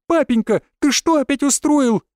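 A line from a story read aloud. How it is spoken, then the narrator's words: Girl's shriek. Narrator (Russian): взвизгнула девушка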